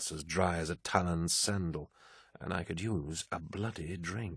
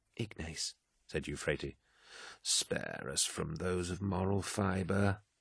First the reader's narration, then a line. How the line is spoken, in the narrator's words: he sighed